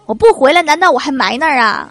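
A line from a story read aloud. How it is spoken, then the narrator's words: Loud. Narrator (Chinese): 大爷大声地说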